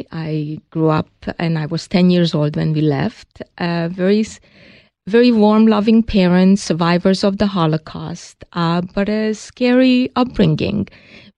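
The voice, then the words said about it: Hungarian accent. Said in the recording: “we all hear the accent. That's a Hungarian accent.”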